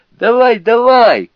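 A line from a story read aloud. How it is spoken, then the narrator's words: Shout. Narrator (Russian): крикнул он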